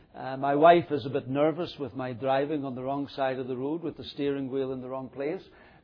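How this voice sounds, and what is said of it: Northern Irish accent. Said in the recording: “despite the accent, brought up in England and not Northern Ireland”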